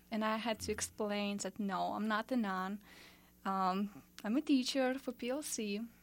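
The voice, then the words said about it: Eastern European accent. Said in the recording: “you're from Eastern Europe ... children are really, really curious about my accent”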